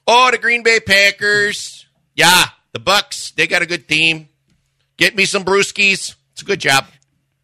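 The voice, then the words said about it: Put-on Wisconsin accent. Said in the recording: “Is that what you sounded like when you were growing up in Wisconsin? ... I was doing things and talking like this on the daily.”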